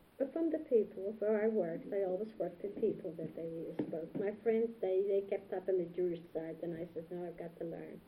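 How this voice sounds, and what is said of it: Non-native English speaker's accent. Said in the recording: “still don't talk good, still have an accent.”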